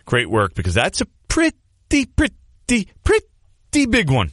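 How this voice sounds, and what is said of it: Poor Larry David impression. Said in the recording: “worst Larry David impression”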